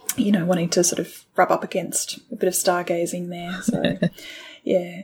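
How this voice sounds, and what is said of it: Usual voice. Nothing is said of it.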